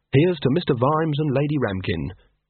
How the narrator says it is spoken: in a clear, sincere voice

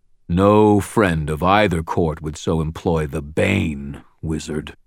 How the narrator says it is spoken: the Gruff growled

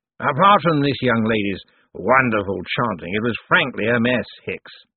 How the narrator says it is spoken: he said sharply

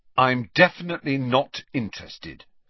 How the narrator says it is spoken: said Harry firmly

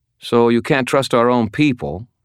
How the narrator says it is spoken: he said

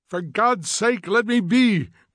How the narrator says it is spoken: cried Montag passionately

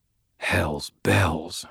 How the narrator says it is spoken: I muttered, frustrated

